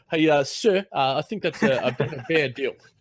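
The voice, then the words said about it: Poor put-on New Zealand accent. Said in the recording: “That's my horrible Kiwi accent.”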